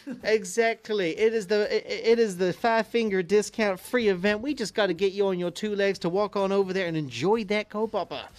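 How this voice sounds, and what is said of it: Put-on southern accent. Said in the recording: “Don't know why I did it in the southern accent”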